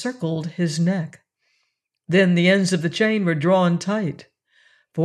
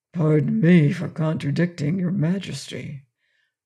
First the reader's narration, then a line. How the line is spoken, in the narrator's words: returned Quox in a quiet voice